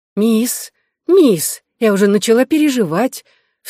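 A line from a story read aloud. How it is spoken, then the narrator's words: Anxious voice. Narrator (Russian): Клара тревожным голосом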